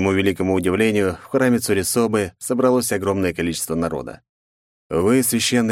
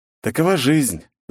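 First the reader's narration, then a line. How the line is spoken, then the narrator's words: Sighing. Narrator (Russian): вздохнув, ответил я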